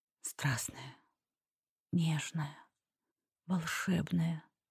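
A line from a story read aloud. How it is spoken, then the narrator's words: Whisper. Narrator (Russian): послышался шепот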